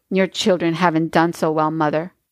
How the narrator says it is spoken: Katie smiled bitterly

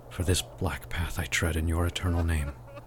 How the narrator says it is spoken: he muttered under his breath as he walked

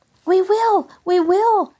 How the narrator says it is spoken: shouted the girls

